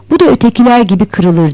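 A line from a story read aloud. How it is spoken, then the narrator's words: Plain. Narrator (Turkish): dedi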